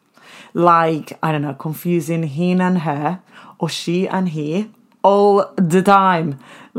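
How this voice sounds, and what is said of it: Spanish-accented English. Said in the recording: “Spanglish, a weird accent”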